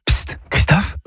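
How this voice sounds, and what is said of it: Whispering. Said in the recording (French): “pourquoi chuchotez-vous ?”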